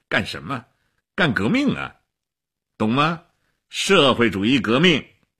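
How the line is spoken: Laughing. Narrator (Chinese): 齐比索夫笑起来了

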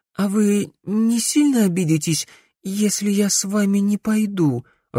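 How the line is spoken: Timid question. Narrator (Russian): робко спросила Финея

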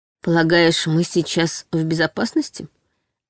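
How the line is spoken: Forced calm, hiding fear. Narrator (Russian): Осведомилась я максимально спокойно, стараясь не выдать собственные страхи

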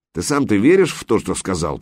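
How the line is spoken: Berserker grumbling. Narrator (Russian): проворчал берсерк

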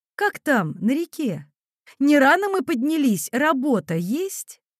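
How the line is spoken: Calm, friendly voice. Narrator (Russian): Стюардесса спокойным, доброжелательным голосом поддержала деловой разговор

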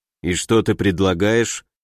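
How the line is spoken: Gloomy question. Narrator (Russian): мрачно спросил Александр

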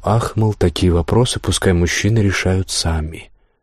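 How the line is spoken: Tired, smiling reply. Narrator (Russian): улыбнулась устало и ответила ему

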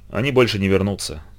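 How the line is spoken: Mutter. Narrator (Russian): пробормотал Зидор

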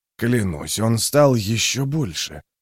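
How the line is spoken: Muttered. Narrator (Russian): пробормотал Юранд

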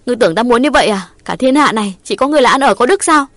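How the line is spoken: Aggrieved loud shout. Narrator (Vietnamese): Ngọc ấm ức quát lớn

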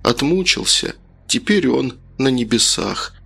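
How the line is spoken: Sad parents. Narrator (Russian): отец и мать скажут печально

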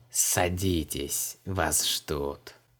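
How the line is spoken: Contemptuous hiss. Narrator (Russian): Погонщик рабов презрительно прошипел

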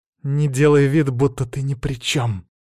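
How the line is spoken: Growling like a she-wolf. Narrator (Russian): словно волчица рыкнула Лидия

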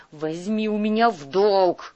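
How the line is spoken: Growling. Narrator (Russian): зарычал Шас

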